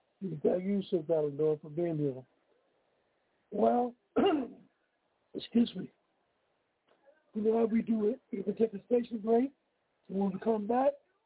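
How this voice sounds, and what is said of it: Strained, failing voice. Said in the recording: “My voice is giving out.”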